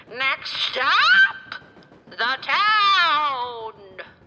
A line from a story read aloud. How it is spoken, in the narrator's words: the conductor yelling